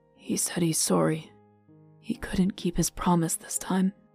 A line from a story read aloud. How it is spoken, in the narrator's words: Vivin managed to whisper hoarsely